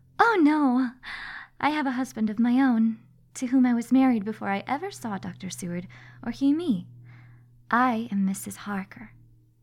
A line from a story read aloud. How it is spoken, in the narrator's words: Harker smiled sweetly as she replied